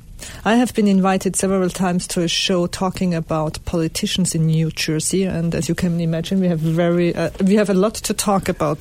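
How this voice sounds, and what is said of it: Mixed German French Italian accent. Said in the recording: “me with my accent, with that German, French, Italian something in between”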